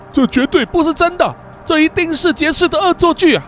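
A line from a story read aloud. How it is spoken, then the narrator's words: Shouting. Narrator (Chinese): 大喊了一声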